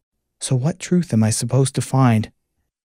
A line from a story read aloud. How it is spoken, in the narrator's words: Anxiously, she asked